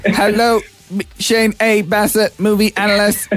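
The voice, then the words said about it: C-3PO robot voice, British accent. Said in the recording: “C-3PO impressions ... it's actually a combination of R2-D2 and C-3PO because R2-D2 just does the beats and C-3PO talks with a British accent”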